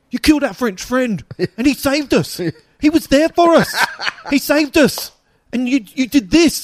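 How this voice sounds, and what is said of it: Accent drifting from Cockney to Scottish. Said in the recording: “I don't know what my accent is ... It kind of went from Cockney to Scottish”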